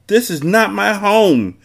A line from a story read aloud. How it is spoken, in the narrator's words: she screamed forcefully